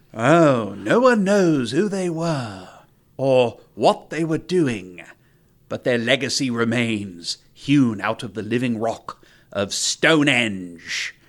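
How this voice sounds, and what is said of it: Bad put-on British accent. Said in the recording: “if we have any British listeners left, I apologize for the accent. ... I feel like Spinal Tap, you can do a bad accent.”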